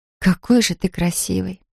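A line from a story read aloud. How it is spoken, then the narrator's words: Tired smiling whisper. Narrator (Russian): прошептала она с усталой улыбкой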